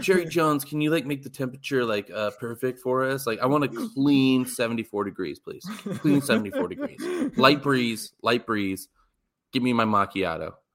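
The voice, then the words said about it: Imitates another person's voice. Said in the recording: “doing an impression ... Spot on impression”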